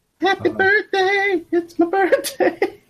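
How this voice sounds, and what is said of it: High-pitched voice. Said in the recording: “When you did that in a high tone voice,”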